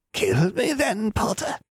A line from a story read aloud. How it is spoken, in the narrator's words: Travers rasped